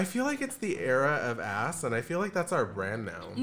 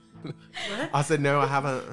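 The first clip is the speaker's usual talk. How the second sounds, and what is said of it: Good put-on Australian accent. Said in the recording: “That was a really good Australian accent, actually.”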